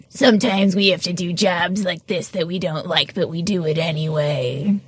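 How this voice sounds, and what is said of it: Imitates another person's voice. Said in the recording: “That was a really good impression... That was a perfect impression.”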